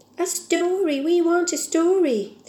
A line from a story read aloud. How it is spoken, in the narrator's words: they cried